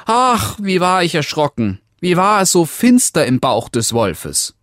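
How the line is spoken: Called out. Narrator (German): das Rotkäppchen rief

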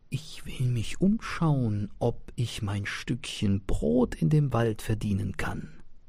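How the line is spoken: Whispering. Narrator (German): wisperte

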